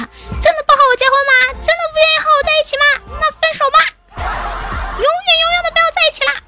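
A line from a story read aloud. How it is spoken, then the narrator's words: Feigned hysterical shouting. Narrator (Chinese): 男孩子假装歇斯底里喊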